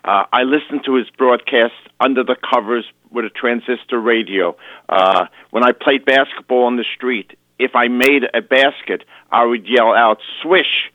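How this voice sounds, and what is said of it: Bronx accent. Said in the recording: “You can hear my Bronx accent”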